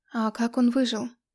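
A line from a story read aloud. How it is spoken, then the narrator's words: Plain. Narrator (Russian): спросила я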